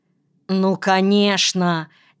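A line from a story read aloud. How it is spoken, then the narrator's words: Angry reply. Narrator (Russian): сердито отозвалась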